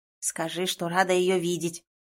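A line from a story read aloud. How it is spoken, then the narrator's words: Ghost's growl. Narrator (Russian): рыкнул призрак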